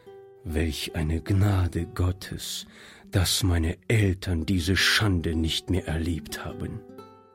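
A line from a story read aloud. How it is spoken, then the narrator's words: Quiet muttering to himself. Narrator (German): sagte Monsieur Joubert leise vor sich hin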